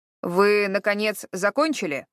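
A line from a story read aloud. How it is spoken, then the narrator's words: Irritated question. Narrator (Russian): раздраженно поинтересовался Харад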